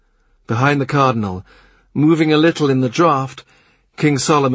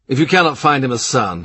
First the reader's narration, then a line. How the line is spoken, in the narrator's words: he says